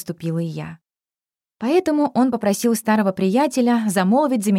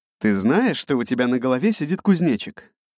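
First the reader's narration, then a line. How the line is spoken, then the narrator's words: Low husky voice close by. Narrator (Russian): Прямо у моего уха раздался низкий хрипловатый голос, показавшийся мне отдаленно знакомым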